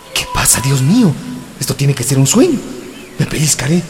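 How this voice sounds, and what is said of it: Man's character speaking in woman's voice. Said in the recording (Spanish): “¿Por qué diablos tengo voz de mujer?”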